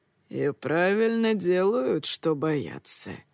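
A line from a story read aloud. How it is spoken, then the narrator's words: Gloomy reply. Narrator (Russian): мрачно ответил Итира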